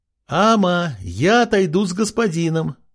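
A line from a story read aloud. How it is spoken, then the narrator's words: Shout through cupped hands. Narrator (Russian): прокричала она, сложив ладошки рупором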